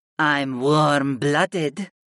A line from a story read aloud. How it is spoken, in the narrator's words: Mira Lee purred